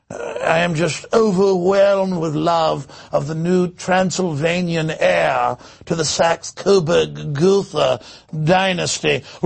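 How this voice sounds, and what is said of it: Fake British accent. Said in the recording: “I will be conducting the entire InfoWars Nightly News in a fictitious British accent.”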